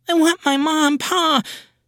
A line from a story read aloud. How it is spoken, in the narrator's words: The boy screams